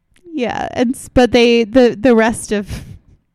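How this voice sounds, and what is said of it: Usual voice. Nothing is said of it.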